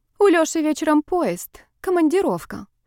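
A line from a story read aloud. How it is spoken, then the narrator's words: Sad. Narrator (Russian): грустно поделилась Тамилина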